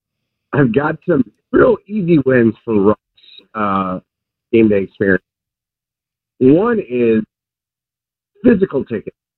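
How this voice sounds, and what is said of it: Slightly hoarse voice. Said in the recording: “my voice is a little hoarse from yelling”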